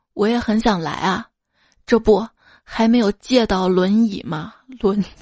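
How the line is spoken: Long sigh. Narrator (Chinese): 姐夫长叹一口气道

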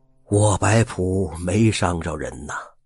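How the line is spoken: Sighing. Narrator (Chinese): 海爷叹了口气说道

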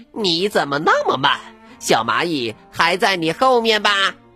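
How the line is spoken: Happy loud shout. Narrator (Chinese): 它开心极了，转过身来，大声对乌龟喊道

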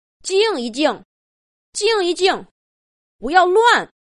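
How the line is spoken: Loud shout. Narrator (Chinese): 大声喊道

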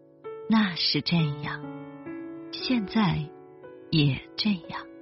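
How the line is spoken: Muttering to oneself. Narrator (Chinese): 你喃喃自语

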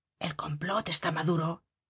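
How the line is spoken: Hushed conspiratorial. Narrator (Spanish): Se cambiaban en voz baja palabras significativas

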